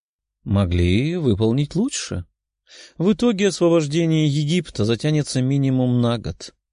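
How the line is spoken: Calm reply. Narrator (Russian): спокойно ответил мужчина в золотом

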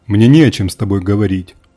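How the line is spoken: Cold. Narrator (Russian): холодно произнес Марк

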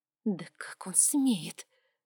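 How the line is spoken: Angry hiss. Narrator (Russian): прошипела она

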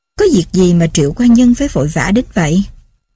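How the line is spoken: Amused, laughing question. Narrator (Vietnamese): bao công bật cười, hỏi vui

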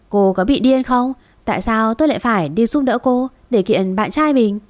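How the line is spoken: Bursting into laughter. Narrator (Vietnamese): Cô ta đột nhiên cười phá lên

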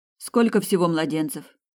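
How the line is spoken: Plain. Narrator (Russian): спросила Сабина

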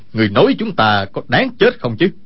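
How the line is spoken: Shout. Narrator (Vietnamese): Kha Trấn Ác quát

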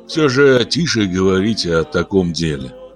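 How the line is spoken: Sighing. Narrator (Russian): вздохнул Арчил

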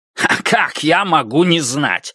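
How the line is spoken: Snorting. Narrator (Russian): фыркнул Иниго

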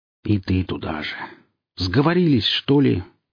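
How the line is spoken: Sigh. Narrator (Russian): вздохнул я

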